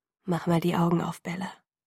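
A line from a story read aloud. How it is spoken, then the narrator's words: Quiet. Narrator (German): sagte er leise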